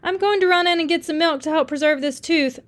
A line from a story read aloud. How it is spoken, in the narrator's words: the driver hollered